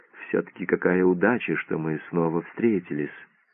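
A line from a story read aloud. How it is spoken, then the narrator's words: Timid repeated voice. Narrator (Russian): Доктор робким голосом опять повторил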